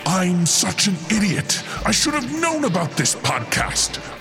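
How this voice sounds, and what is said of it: Exaggerated dramatic reading voice. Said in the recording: “in my most dramatic voice”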